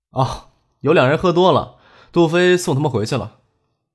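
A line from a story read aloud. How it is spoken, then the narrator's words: Faint smile. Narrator (Chinese): 张克朝陈信淡淡一笑，说道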